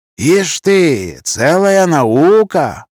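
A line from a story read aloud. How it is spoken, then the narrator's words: Respectful drawl. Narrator (Russian): уважительно протянул мой собеседник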